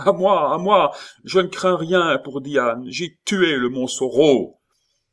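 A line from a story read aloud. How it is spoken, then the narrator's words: Shouting again. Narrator (French): cria-t-il de nouveau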